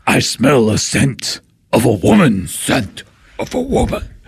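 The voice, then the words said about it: Bad Al Pacino impression. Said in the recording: “terrible Al Pacino impression”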